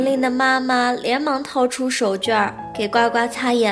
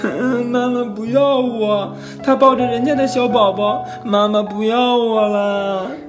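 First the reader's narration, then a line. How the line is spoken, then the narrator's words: Sad wailing sobs. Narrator (Chinese): 呱呱 伤心的哇哇大哭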